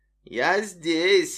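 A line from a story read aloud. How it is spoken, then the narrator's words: Snide, smirking. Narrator (Russian): ехидно ухмыльнулась луна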